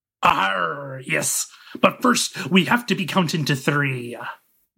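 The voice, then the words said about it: Pirate voice. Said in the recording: “do the pirate voice?”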